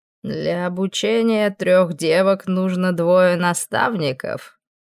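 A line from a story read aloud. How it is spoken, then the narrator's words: Mocking question. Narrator (Russian): Насмешливо спросил тот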